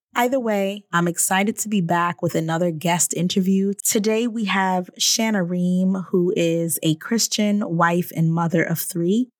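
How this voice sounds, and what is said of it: Hoarse voice. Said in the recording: “as you all can hear, my voice is hoarse. I am just getting over a cold ... I know it sounds pretty bad ... the hoarseness of my voice today”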